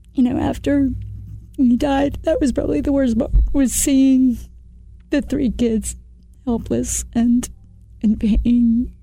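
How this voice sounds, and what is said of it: Emotional, choked-up voice. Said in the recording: “I might get a little emotional.”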